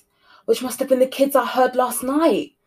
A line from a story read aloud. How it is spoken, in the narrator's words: exclaimed Lorraine